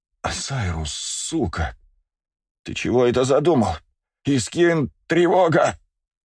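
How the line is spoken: Hoarse woman's wheeze. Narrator (Russian): прохрипела сотрудница СБС

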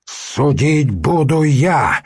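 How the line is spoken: Barked. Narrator (Russian): рявкнул Святослав

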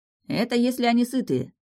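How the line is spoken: Wry snort. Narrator (Russian): хмыкнул Антер

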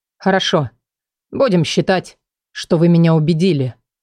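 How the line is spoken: Cold, curt. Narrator (Russian): холодно бросил

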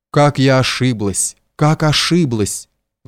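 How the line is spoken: Tearful sigh. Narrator (Russian): вздохнула она сквозь слезы

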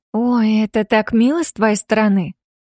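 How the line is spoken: Joyful chirping. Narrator (Russian): Радостно прощебетала Йосика

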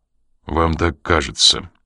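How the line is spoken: Dry objection. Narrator (Russian): сухо возразил он

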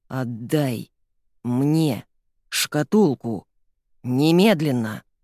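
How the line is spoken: Thunderous, terrifying voice. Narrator (Russian): Прогремел Генри таким жутким голосом

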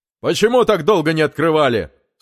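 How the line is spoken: Stern official voice. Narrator (Russian): строго произнес околоточный

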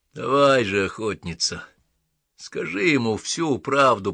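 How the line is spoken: Hoarse rasp. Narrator (Russian): прохрипел маркиз Карабас

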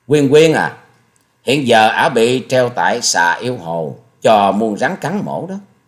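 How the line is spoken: Sneering, slow voice. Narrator (Vietnamese): Hà Xà Tiên Tử tống lệ lệ cười khẩy, rồi giọng chậm rãi nói

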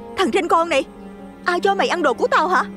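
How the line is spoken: Angry shout. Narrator (Vietnamese): Nó hét lên đầy tức giận

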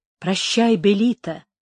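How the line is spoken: Whisper. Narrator (Russian): шептал Горацио

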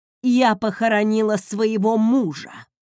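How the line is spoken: Growling. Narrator (Russian): прорычала

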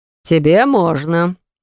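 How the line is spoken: Man's snort. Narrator (Russian): хмыкнул мужчина

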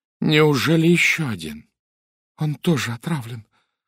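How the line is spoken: Trembling voice. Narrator (Russian): произнесла дрожащим голосом Анжела Сатклифф

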